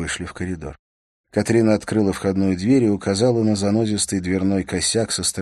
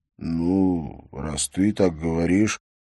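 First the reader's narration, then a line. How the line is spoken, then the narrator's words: Drawling. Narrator (Russian): протянул Бьорн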